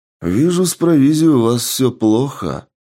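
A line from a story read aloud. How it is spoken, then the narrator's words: Drawled. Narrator (Russian): протянул Сергей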